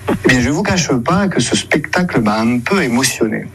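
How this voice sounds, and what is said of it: Weak, odd imitation of Marseille accent. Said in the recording (French): “frère Binachon essaie d'imiter l'accent marseillais, mais sans se lâcher totalement. Ça donne l'accent, avouons-le, très bizarre, une imitation pas trop réussi”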